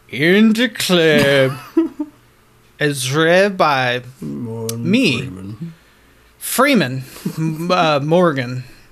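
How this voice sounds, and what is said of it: Imitates another person's voice, drunk. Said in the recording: “a drunk Morgan Freeman reads them as well, because he's got a soothing voice ... That was so bad ... It was a great, great impression.”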